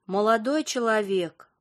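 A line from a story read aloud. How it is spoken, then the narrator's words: Slow exhale. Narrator (Russian): Алевтина Константиновна медленно выдохнула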